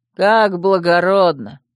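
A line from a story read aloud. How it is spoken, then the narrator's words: Lazy yawn. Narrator (Russian): лениво зевнул Верфокс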